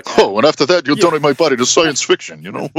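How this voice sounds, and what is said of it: Imitates another person's voice. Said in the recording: “my Rodney impression”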